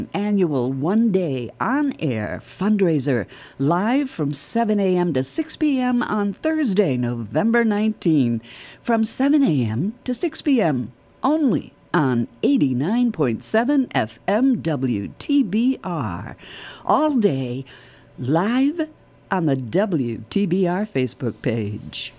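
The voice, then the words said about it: Polished radio announcer voice. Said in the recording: “You have got the best radio voice. ... It's just perfect. ... You should be a newscaster.”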